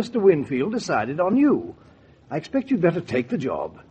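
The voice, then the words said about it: English accent. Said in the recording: “the butler with the English accent”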